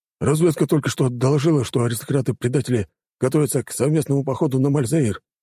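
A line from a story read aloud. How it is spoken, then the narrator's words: Rapid patter. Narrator (Russian): протараторил капитан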